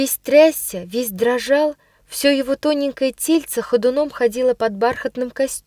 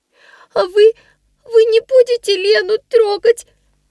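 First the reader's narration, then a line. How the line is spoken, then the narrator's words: Sobbing child's whisper. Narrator (Russian): всхлипывая, прошептал мальчик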